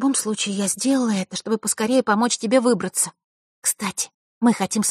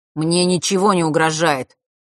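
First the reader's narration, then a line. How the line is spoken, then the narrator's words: Slightly irritated. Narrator (Russian): немного раздраженно произнес тот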